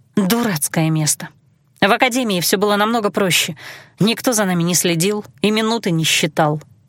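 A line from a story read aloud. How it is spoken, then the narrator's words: Sigh. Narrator (Russian): вздохнула я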